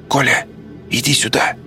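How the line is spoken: Called in a whisper. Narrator (Russian): позвал он шепотом

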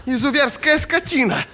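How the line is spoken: Shouting. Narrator (Russian): закричала Катиль

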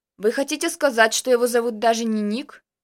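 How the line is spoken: Very rough male voice. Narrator (Russian): задал вопрос мужчина с крайне грубым голосом

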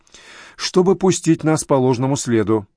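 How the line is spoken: Sigh. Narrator (Russian): Райм вздохнул

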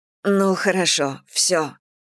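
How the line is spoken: Hoarse rasp. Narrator (Russian): прохрипела Мэгги

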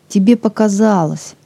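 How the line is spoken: Calm reply. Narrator (Russian): спокойно ответил второй мужчина

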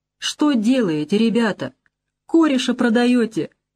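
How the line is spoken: Said plaintively. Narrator (Russian): Чурин говорит, да жалобно так

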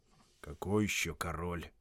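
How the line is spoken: Sullen grumble. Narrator (Russian): пробурчал угрюмый голос

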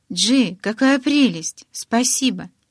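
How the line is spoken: Sighing. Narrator (Russian): Он вздохнул

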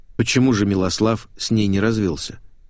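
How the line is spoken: Plain. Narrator (Russian): спросил я

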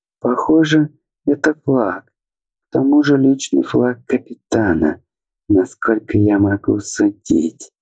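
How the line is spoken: Confused, uncertain. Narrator (Russian): растерянно предположила Фелиса

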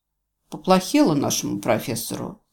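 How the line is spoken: Dejected sigh. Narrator (Russian): сокрушенно вздохнул бывший рейнджер

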